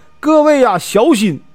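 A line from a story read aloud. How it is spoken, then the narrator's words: Urgent cry. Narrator (Chinese): 我赶忙就叫啊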